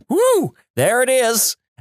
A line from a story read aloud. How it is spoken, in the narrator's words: yell out